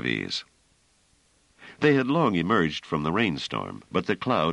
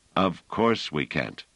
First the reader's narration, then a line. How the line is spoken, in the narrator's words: said Pellerat